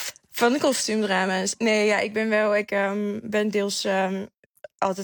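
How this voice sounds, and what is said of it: Usual voice. Nothing is said of it.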